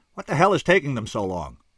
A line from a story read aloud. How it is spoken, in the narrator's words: I barked irritably